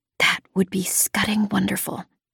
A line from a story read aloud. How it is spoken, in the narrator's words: I whispered back